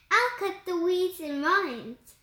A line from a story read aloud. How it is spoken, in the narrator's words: she said